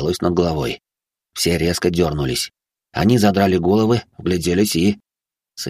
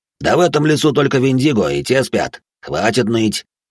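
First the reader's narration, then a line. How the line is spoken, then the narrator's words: Barked shout. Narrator (Russian): гаркнул друг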